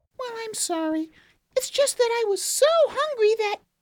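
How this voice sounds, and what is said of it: Girl character voice. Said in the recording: “Girl voice.”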